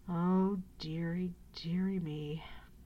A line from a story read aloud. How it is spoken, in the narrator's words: moaned the dragon